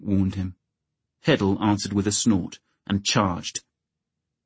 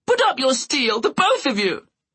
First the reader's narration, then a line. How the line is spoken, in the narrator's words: Butterwell screeched